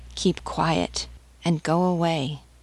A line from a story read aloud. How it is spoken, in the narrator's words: The woman said to her softly